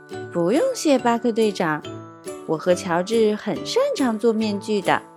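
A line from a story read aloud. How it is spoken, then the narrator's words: Laughing. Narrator (Chinese): 佩奇笑了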